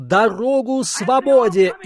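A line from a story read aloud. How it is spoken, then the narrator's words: Shouted. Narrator (Russian): закричал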